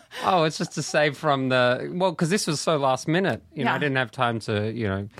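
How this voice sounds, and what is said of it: Speaks with a noticeable accent. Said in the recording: “Are you my first accent on this podcast? ... I think everyone has an accent.”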